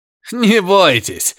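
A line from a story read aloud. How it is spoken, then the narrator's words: Laughing. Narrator (Russian): засмеялся Лайхом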